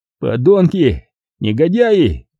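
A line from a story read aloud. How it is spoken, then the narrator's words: Strained shouting, echoing. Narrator (Russian): надсадно кричал я в равнодушную горловину своей тюрьмы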